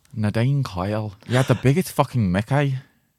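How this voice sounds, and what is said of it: Put-on Northern Irish Derry accent. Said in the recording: “the most difficult Irish accent to do as well. It's like a Derry accent. ... like Northern Ireland.”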